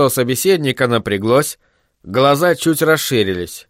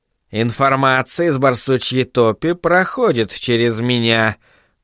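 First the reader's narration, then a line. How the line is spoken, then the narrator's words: Hiss. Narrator (Russian): прошипел он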